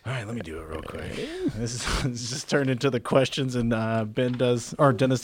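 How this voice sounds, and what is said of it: Usual voice. Nothing is said of it.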